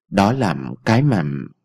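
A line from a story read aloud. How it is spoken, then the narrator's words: Hesitant. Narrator (Vietnamese): Ông Thái ngập ngừng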